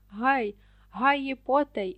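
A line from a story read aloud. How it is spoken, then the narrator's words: Dwarf's exclamation. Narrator (Ukrainian): вигукнув карлик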